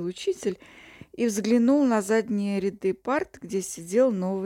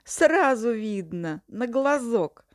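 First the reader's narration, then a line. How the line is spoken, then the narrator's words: Laughing. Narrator (Russian): засмеялся Бунька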